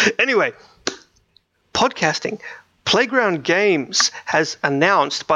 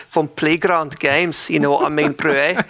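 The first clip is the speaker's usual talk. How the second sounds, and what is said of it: Put-on South African accent. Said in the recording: “South African accents ... It's such a silly accent”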